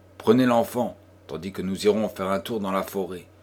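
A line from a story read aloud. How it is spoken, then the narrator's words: Imperious. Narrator (French): dit-il d'un ton impérieux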